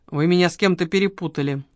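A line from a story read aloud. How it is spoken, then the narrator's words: Gloomy male reply. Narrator (Russian): мрачно отозвался человек с конским хвостом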